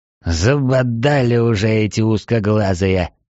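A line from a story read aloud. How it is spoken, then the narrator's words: Displeased grumble. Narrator (Russian): недовольно проворчал Трайнул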